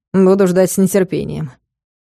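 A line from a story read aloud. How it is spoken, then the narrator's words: Snorting. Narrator (Russian): хмыкнул Соболев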